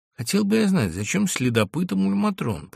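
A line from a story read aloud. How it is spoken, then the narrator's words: Mutter. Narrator (Russian): пробормотал Ганс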